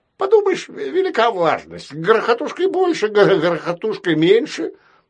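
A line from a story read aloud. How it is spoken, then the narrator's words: Stubborn bird's squeak. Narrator (Russian): пропищала упрямая птица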